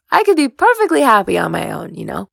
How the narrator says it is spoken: Uma laughed

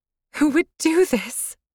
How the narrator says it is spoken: Her voice was broken and soft

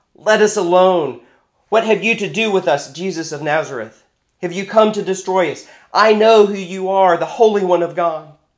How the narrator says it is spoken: a man who had a spirit of an unclean demon, and he cried out in a loud voice

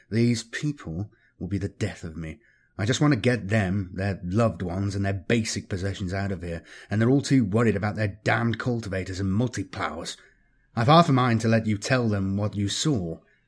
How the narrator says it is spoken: muttered, under his breath

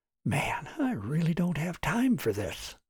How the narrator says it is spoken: Martin muttered to Robert

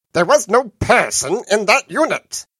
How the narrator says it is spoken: Benitez said hotly

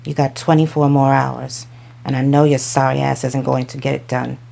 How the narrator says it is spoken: Micah say with a growl

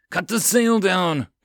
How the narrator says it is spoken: Captain Nemu roared

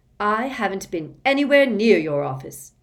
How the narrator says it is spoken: Harry said angrily

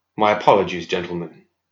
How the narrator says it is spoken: said softly

